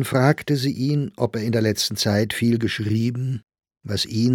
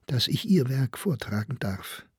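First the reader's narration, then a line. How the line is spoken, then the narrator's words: Soft, mouth covered. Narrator (German): sagte leise, während sie das eine Ende der Bohr vor den Mund hielt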